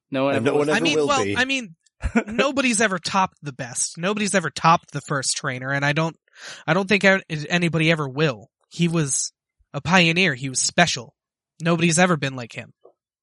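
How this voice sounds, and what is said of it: Character voice for a story figure. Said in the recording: “doing my voice for Silver right now. I know my voices aren't all that great”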